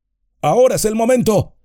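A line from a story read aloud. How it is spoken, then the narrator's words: Shouting. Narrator (Spanish): gritó Gandalf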